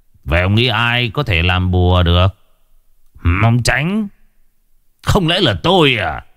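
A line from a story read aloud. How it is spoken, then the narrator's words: Soft scornful sneer. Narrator (Vietnamese): Thầy Đồ Lựu khẽ cười khẩy một cái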